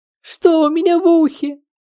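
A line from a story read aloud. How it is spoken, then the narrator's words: Terrified squeal. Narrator (Russian): запищала Маша от ужаса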